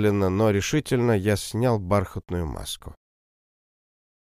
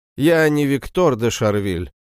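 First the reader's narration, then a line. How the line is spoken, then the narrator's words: Loud repetition. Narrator (Russian): громко повторил я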